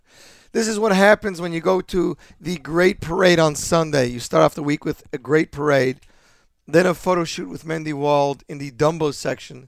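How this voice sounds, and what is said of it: Hoarse, partly lost voice. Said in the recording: “As you can hear, my voice is still a little bit gone.”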